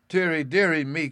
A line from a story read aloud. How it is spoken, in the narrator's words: cried my mother